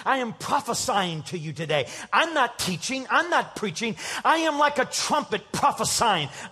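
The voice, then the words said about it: Raised, excited preaching voice. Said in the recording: “My voice is raised. I'm not upset. I'm excited.”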